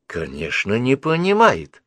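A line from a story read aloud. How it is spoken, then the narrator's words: Exclaimed. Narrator (Russian): воскликнула Мидж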